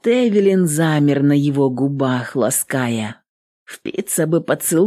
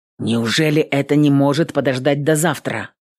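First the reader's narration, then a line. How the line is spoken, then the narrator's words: Angry exhale. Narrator (Russian): Он сердито выдохнул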